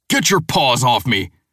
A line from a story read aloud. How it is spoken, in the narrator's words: He roars